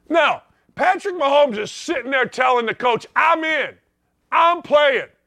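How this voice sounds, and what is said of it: Yelling, fired-up loud delivery. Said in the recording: “Why am I yelling? I'm fired up today.”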